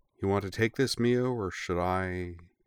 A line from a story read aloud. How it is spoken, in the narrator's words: she added in a startlingly gentle voice